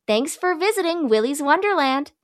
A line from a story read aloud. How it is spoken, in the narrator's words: Sarah says cheerfully from behind the car